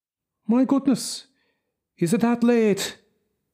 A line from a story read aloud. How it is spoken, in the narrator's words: exclaimed, letting on to be astonished